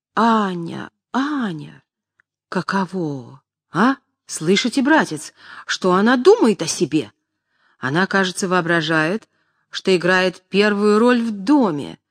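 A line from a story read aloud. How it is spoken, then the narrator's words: Old man's desperate exclamation. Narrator (Russian): Старичок в отчаянии воскликнул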